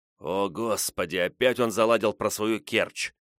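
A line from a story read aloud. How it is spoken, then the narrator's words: Hissing. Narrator (Russian): прошипел Петрович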